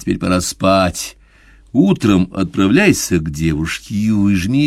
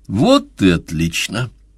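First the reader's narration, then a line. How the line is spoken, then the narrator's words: Solemn pronouncement. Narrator (Russian): торжественно изрек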